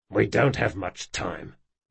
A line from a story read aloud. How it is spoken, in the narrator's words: muttered Jean